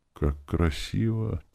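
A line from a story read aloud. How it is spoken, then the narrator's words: Quiet girl's voice. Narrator (Russian): тихо произнесла девочка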